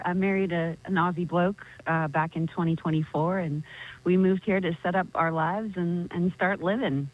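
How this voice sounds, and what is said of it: Noticeable American accent. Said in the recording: “you do have a noticeable American accent”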